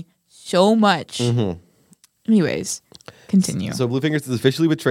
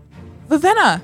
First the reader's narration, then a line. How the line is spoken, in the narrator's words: Nightblood said happily